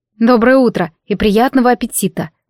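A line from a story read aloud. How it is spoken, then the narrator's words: Grumbled. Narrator (Russian): буркнула я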